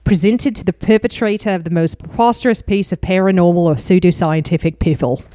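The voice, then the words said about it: Put-on Australian accent. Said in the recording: “I'm going to try and do this in Australian accent because it's really silly”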